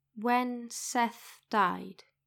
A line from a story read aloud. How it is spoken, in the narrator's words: she says, slowly, like she's choosing each word carefully